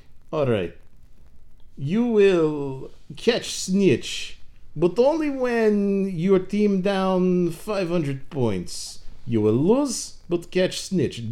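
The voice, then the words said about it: Put-on Bulgarian accent, sounds Russian. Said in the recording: “I'm going to do a Bulgarian accent, which will sound like a Russian accent”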